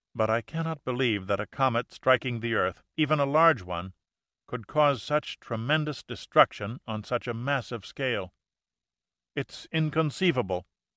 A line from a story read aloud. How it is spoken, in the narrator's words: said Stevens quietly